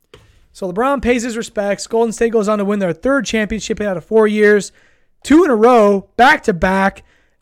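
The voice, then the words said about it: Hoarse, worn-out voice. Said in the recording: “my voice is already gone, guys. I've been yelling all night.”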